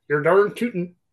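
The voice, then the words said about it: Put-on American accent. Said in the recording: “Do it with the American accent.”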